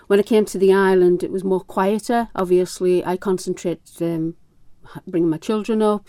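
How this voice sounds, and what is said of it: Northeast England accent. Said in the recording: “with this accent, you know I'm from the northeast of England.”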